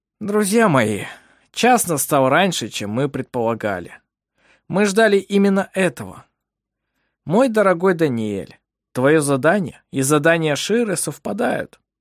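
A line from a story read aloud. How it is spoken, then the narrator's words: Deep sigh, then speaking. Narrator (Russian): Ировар глубоко вздохнул и сказал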